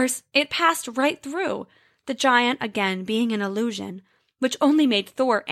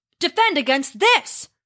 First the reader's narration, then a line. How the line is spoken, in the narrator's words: Thor roared